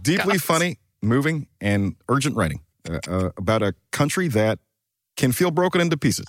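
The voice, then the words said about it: Imitates another person's voice. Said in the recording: “It in the Obama accent, yeah. Please.”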